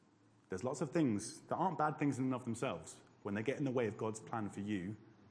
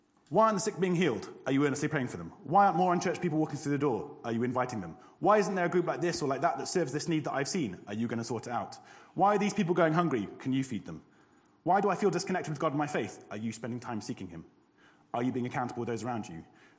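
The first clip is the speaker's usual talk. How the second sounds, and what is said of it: Very fast, rushed speech. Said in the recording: “I'm going to say this really quickly.”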